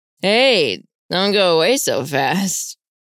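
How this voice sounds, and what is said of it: Slurred drunken trader voice. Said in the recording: “in a slurred voice. ... He obviously had his rum”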